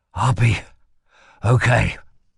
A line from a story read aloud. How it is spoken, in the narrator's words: he whispered shakily